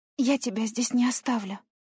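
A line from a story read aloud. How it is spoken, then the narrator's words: Whispered. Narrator (Russian): шепнула я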